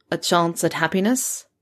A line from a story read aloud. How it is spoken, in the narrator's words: It came out dryly, like he might not mean it